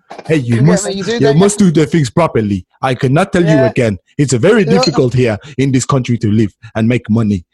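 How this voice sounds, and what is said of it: Put-on Nigerian accent. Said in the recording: “I know an African person when I hear the accent ... they talk like this ... It sounds Nigerian.”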